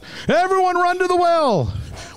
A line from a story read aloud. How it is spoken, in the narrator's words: Mike yells